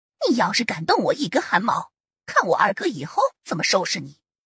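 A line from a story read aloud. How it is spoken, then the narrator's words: Venomous, through gritted teeth. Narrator (Chinese): 柳月娥用那种怨毒的眼神瞪着胡杨，咬牙切齿的说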